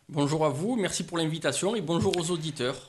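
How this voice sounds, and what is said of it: Southern French Marseille accent. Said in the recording (French): “on l'entend un peu ... votre accent qui sent la Méditerranée. Vous nous venez de Marseille”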